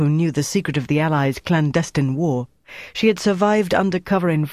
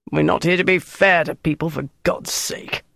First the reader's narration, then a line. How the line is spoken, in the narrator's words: Monty growled